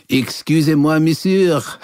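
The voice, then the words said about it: Bad Pepe Le Pew-style French accent. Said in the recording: “That's how Pepe Le Pew would say the name ... my bad French accent”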